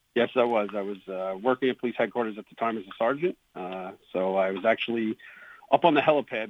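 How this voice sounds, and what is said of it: Thick New York accent. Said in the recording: “this is a pretty good New York thick accent”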